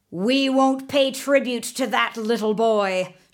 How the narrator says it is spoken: shouted Raja Ganesh, the head of the rebellious chieftains

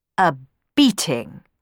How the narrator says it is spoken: replied Sarastro sternly

